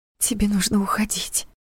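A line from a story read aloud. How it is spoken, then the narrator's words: Agitated whisper. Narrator (Russian): прошептала Саша, стараясь унять бешено бьющееся сердце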